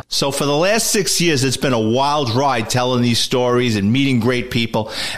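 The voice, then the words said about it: Nasal Bronx accent. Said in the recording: “my nasal Bronx accent”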